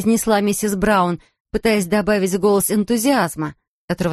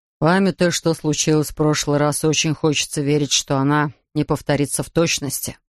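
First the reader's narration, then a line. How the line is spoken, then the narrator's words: Grumbling mutter. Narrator (Russian): пробурчал мистер Браун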